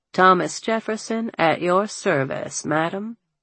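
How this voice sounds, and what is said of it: Refined southern American accent. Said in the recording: “a refined southern accent”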